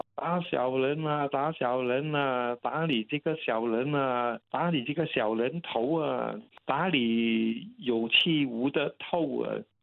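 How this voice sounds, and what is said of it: Cantonese with Dongguan accent, chanting. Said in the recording (Chinese): “他们用用东莞口音的广东话来讲”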